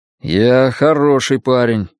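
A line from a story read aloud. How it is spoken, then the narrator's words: Gloomy objection. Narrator (Russian): мрачно возразил он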